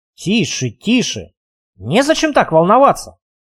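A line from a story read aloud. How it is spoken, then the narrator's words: Amused snort. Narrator (Russian): хмыкнул алхимик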